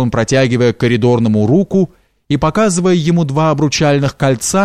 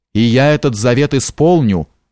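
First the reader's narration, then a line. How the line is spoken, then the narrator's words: Menacing, artist. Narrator (Russian): грозно сказал художник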